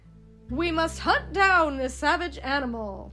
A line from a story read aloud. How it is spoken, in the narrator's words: Gaston cried